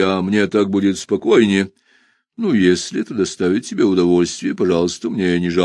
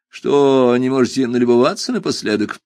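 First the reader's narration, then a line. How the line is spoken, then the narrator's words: Snide question. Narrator (Russian): ехидно спросил я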